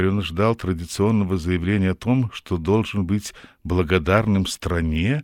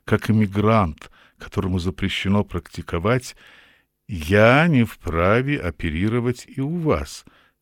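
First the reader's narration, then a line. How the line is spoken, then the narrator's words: Calm. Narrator (Russian): спокойно договорил Равик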